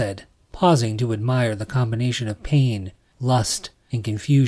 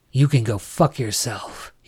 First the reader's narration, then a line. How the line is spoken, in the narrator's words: he growled